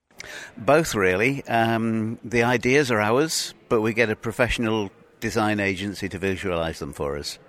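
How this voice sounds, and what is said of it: English accent. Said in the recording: “a transplant from Britain, is the one with the English accent.”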